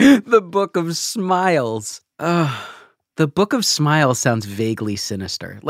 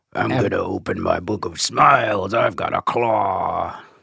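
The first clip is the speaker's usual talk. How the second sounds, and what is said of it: Horror villain character voice. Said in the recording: “my Freddy impression”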